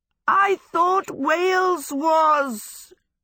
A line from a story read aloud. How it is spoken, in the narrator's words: Sophie screamed